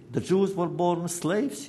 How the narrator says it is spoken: said

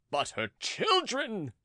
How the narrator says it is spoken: cried Charny suddenly with fury

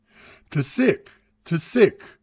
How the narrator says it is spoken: the Makotos cried

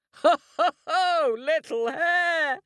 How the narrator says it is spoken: laughed the lion

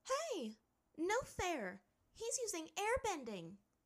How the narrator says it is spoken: Azula shouted

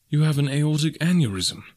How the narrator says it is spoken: I cried

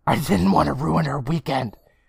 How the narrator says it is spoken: Sally whisper yells

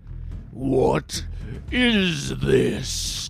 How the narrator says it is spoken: He bellowed, as his anger grew

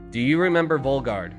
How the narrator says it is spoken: I asked Rodriguez

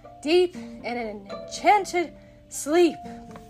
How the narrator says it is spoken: gasped Hook

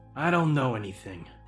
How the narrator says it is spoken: he said gruffly

